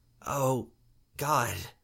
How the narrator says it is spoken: Maggie muttered

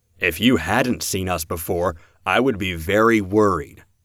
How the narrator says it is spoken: Callan said

